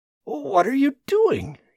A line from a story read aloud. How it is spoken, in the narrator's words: gasped